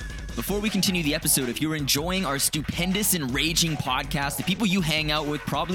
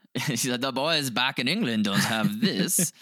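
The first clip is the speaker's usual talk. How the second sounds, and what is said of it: Put-on English accent. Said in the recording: “That's my English accent.”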